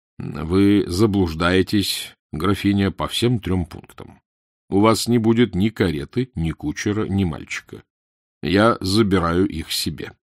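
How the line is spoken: Dry, curt. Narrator (Russian): сухо сказал

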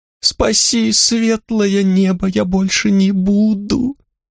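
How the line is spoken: Whimpering thief. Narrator (Russian): хныкал воришка

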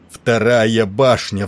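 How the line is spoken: Roaring. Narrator (Russian): взревел он

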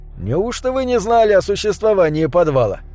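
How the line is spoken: Chuckling. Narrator (Russian): Я хохотнул

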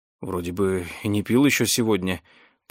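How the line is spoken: Bewildered mutter. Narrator (Russian): пробормотал он, по-прежнему пребывая в совершенном замешательстве

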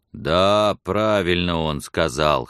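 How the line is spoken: Bold deep bass. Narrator (Russian): храбро забасил один из них

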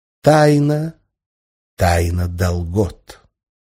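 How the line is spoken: Solemn confirmation. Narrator (Russian): Кальбер торжественно подтвердил

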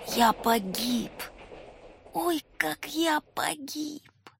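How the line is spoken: Quiet disgusted whisper. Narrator (Russian): тихо шептал Волька, с отвращением

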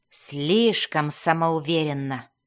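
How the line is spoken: Grumbled. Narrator (Russian): проворчала она

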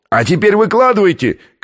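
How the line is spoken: Shout from below. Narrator (Russian): крикнул снизу австралиец

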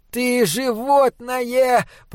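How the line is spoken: Hoarse croak. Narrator (Russian): прохрипел Унах и Клосп

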